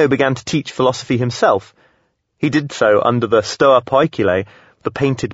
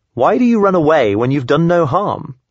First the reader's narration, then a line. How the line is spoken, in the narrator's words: Crates called after him teasingly